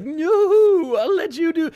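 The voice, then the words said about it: Imitates a villain character's voice. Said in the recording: “That's my impression of Mephisto at every time”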